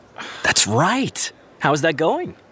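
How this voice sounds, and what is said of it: Excited, upbeat delivery. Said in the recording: “Why do you sound so excited?”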